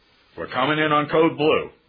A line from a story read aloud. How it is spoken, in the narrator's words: barked over the phone, that is, over the radio